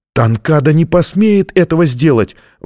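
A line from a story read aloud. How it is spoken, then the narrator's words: Exclaimed. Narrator (Russian): воскликнула она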